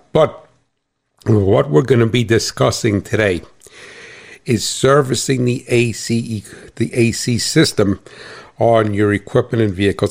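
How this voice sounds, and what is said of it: New Jersey accent. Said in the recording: “if I got a funny accent, that's because I'm from New Jersey”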